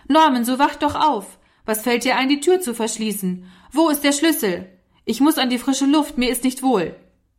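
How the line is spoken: Angry stamping shout. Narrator (German): stampfte er heftig mit dem Fuß und rief

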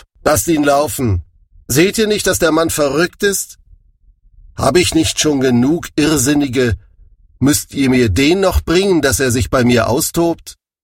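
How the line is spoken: King calling out. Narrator (German): ihr König Achis rief

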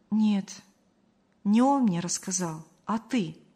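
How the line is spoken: Calm. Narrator (Russian): спокойно сообщила Мария

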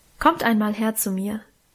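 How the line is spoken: Plain. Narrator (German): sagte Mutter

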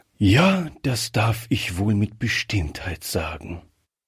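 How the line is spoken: Reply with deep sigh. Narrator (German): erwiderte der Oberst mit einem tiefen Seufzer

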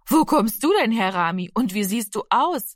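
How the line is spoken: Friendly laughing woman. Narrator (German): lachte die freundliche Frau

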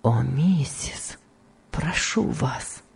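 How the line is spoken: Weak voice. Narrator (Russian): сказал Том слабым голосом

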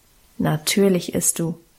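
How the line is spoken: Calm, firm. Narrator (German): bestimmte Guste ruhig

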